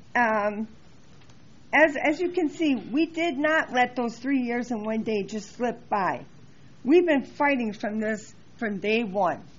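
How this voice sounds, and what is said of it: Hoarse, worn-out voice. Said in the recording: “I'm losing my voice, as you can tell, too.”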